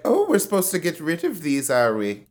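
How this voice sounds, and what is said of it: Poorly done put-on accent. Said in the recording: “Sorry, that was not show, a good accent.”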